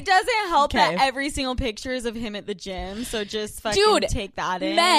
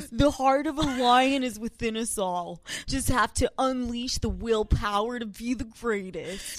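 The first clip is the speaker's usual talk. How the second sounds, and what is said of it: Half Australian, half frat boy accent. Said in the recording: “that voice. That's like a Chad voice. ... you just added half Australian accent, half frat boy accent.”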